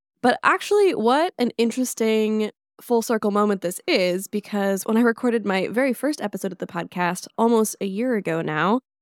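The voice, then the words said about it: Congested, slightly altered voice. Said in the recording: “if my voice sounds a little different, it's because I have a cold... So my voice is a little different, it's a little congested”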